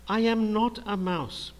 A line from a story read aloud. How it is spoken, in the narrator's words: cried the bat